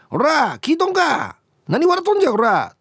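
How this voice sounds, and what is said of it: Put-on Kansai dialect, angry shouting. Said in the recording (Japanese): “関西弁で”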